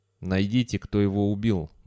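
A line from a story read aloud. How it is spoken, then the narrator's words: Grim. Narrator (Russian): мрачно произнес Джунс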